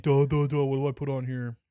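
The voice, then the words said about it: Mocking impression of a company. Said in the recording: “that's a good impression of Paramount”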